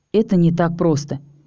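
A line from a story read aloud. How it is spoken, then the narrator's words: Calm reply. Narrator (Russian): спокойно ответил Стил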